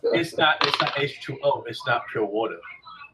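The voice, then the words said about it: Angry, bad Floridian accent. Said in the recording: “That's my angry Floridian ... the horrible accent I was using”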